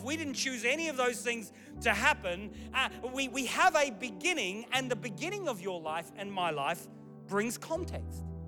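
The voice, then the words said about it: Mixed English-Australian accent. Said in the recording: “I thought ... was English. Why does he sound Australian? ... that bizarre, strange accent”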